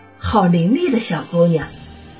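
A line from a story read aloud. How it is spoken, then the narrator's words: Mother's admiring sigh. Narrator (Chinese): 母亲感叹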